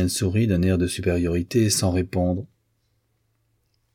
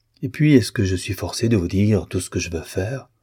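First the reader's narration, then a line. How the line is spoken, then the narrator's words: Piqued artist. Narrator (French): dit l'artiste d'un ton piqué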